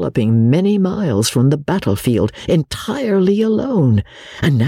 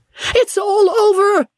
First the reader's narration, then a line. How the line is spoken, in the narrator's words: he shrieked